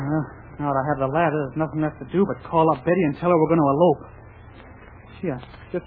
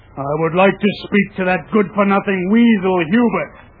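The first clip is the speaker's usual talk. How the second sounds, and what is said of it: Deliberately deepened disguised voice. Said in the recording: “I'll use my deep voice.”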